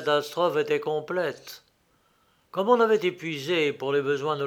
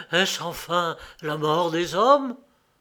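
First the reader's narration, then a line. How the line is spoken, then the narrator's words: Horrified murmur. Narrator (French): il murmura, plein d'horreur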